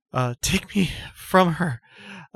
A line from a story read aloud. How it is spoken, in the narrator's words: Apacia has sort of exclaimed